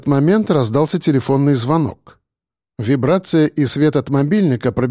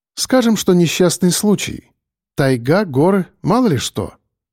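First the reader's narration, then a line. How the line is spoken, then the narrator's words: Calm voice. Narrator (Russian): спокойно произнесла Линда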